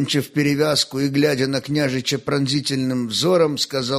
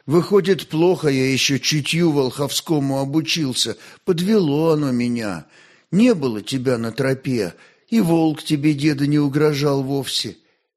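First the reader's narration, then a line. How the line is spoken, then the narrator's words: Sighing. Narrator (Russian): вздохнул и закончил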